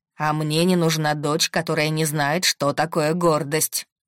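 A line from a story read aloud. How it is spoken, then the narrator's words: Stern father. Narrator (Russian): строго сказал папа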